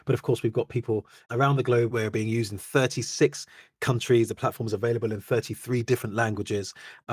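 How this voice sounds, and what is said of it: British accent. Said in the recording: “We hail out of the UK, unsurprisingly. You can probably tell that from my accent.”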